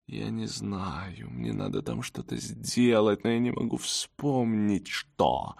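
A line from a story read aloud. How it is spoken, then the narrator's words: Slow, dull, lifeless voice. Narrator (Russian): она медленно потухшим голосом произнесла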